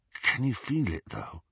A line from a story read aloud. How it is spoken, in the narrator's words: Ron asked in a hushed voice